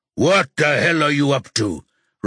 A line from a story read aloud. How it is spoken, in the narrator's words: Rocky roars